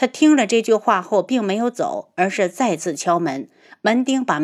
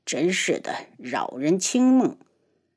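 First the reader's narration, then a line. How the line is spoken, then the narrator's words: Grumbling mutter. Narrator (Chinese): 他的嘀咕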